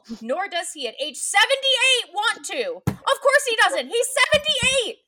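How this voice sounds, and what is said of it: Shouting, loud angry delivery. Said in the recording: “I'm screaming”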